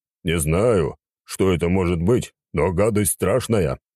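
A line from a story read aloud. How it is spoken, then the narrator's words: Grumbling. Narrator (Russian): проворчал африканец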